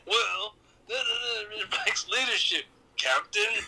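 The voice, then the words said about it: Poor imitation of another person's voice. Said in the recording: “That was the worst impersonation ever.”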